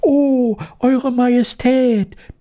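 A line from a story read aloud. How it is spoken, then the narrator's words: Jumbled squeaky voices. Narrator (German): piepsten sie durcheinander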